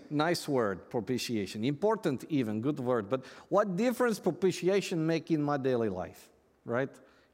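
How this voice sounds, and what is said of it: Yaroslav Pelikan impression, Russian-accented. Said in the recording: “your Yaroslav Pelikan imitation ... Yaroslav was from Russia”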